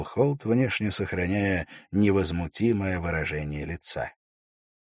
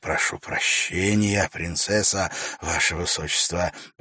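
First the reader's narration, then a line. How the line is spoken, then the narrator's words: Muttering. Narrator (Russian): пробормотал Вакир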